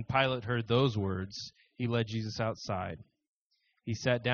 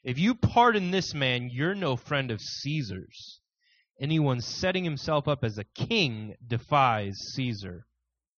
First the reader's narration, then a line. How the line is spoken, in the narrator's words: the Jews shouted him down